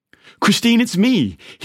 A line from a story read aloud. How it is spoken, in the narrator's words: tried desperately again and again, shouting